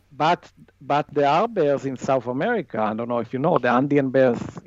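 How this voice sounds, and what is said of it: Non-native English accent. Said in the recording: “Sorry about my accent.”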